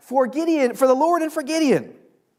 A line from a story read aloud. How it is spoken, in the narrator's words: they shout